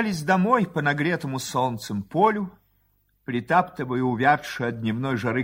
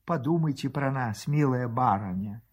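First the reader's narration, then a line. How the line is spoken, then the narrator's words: Soft whisper. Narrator (Russian): тихо шепчет Марья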